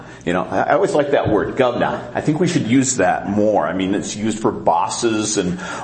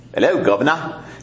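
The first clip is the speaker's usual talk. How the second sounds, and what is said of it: Deliberately bad English accent. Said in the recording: “with a very bad English accent”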